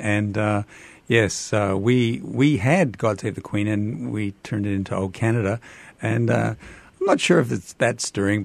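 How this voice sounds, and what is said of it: Canadian accent. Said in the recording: “as you can tell from my accent, Canadian”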